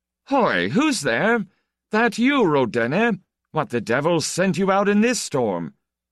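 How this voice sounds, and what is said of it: Strong, loud shouting voice. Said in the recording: “was shouting from the front room in his unexpectedly strong voice”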